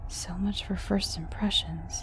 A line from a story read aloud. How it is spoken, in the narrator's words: I mumbled to myself